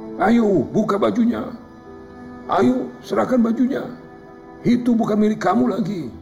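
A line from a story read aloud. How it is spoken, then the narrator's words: Angry crowd shouting together. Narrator (Indonesian): Orang-orang yang sedari tadi berkerumun dan geram dengan kelakuan si lelaki sombong rami-rami berteriak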